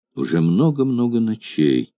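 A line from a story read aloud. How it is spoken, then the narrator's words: Quiet, trembling girl. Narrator (Russian): произнесла тихо девушка, дрожавшая словно лист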